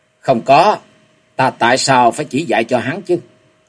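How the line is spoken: Cold old woman. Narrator (Vietnamese): Bà lập tức lạnh lùng nói

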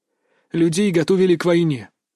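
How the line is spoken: Quiet, heavy voice. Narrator (Russian): начал Захар тихим, но тяжелым голосом

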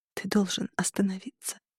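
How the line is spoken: Whispered. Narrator (Russian): прошептала я

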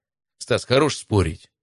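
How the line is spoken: Curt grumble. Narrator (Russian): буркнул на него Матвей

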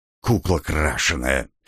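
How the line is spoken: Hissing nearby, vampire woman. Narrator (Russian): послышалось рядом шипение вампирши

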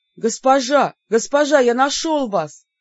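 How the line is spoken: Madman's sudden shout. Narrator (Russian): вдруг выкрикнул безумец

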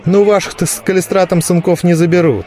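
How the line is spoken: Snide retort. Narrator (Russian): ехидно возразили из толпы

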